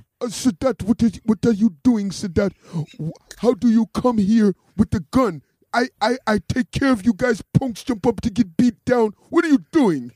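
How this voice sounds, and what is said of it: Imitates another person's voice. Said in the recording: “your best Lior impression ... give us a Lior impression”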